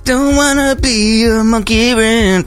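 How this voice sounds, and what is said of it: Sung imitation of a rock singer. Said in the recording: “my impression of that song ... Almost like listening to Dave Grohl himself.”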